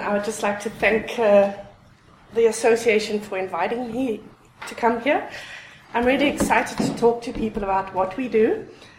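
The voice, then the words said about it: Unusual, hard-to-place accent. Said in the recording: “As many of you can hear, I've got a really strange accent.”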